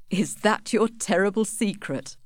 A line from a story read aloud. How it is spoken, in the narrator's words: laughed Angel